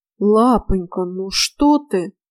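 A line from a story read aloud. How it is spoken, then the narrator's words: Shocked drawl. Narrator (Russian): потрясенно протянул Эльрис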